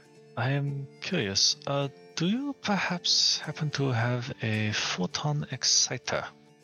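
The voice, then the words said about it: Put-on character accent. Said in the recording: “doing the accent right now”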